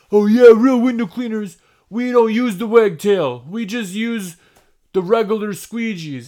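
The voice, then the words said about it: Put-on non-specific accent. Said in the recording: “I don't know what kind of accent that was. It wasn't a specific accent.”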